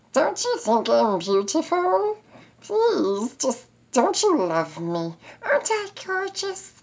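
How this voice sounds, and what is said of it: Ridiculous whiny naggy girlfriend voice. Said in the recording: “doing this ridiculous voice ... the naggy girlfriend type”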